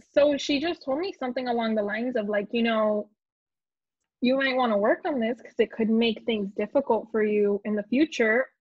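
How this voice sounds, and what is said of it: Noticeable foreign accent. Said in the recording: “my accent and how I think even saying the word accent shows my accent so much”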